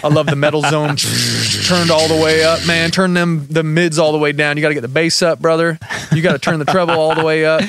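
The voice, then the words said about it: Put-on Southern US accent. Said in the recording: “Sorry, I got my Southern accent going, because it's a Southern rock kind of vibe, that aggressive thing.”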